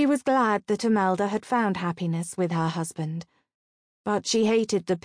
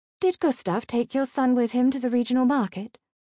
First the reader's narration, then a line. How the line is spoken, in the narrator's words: Raquel asked quickly, eager to change the subject